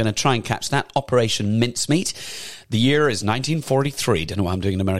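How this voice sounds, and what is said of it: Usual voice. Nothing is said of it.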